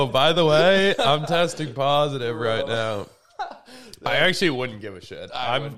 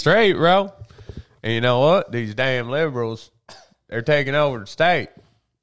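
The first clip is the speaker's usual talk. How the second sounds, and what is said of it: Bad put-on Southern US accent. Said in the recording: “I'm talking like I'm from the fucking south ... that's a terrible southern accent”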